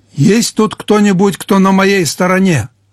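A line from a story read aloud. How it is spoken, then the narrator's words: Shouting at full voice. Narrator (Russian): крикнул он во весь голос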